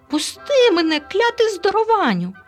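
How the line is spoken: Shrieked. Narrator (Ukrainian): заверещав Елуа

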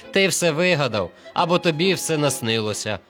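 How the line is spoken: Group mocking laughter. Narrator (Ukrainian): сміялися вони

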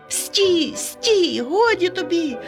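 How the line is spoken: Shout. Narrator (Ukrainian): закричав Ромчик

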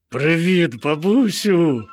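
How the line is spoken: Joyful call, bear cub. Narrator (Ukrainian): радісно загукало ведмежа

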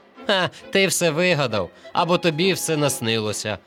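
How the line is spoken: Group laughing. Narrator (Ukrainian): сміялися вони

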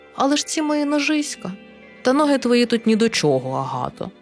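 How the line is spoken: Gentle but insistent. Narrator (Ukrainian): лагідно, але наполегливо

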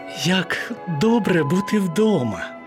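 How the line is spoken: Relieved sigh. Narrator (Ukrainian): полегшено зітхнула Анні

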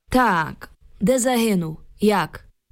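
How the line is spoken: Grim metallic voice. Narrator (Ukrainian): Солдат умить спохмурнів і заговорив металевим голосом

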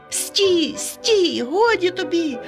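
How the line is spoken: Shout. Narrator (Ukrainian): закричав Ромчик до спортивного костюма

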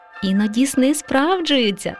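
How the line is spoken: Laughing. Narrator (Ukrainian): засміялася мама мишка

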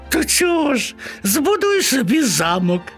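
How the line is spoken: Mice laughing. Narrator (Ukrainian): засміялися миші

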